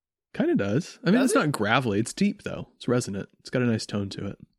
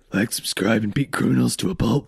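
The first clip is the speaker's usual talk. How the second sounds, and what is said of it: Deep gravelly Batman voice impression. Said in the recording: “It's actually not a terrible Lego Batman impression. ... A Will Arnett version of it. ... He's got a deep gravelly voice.”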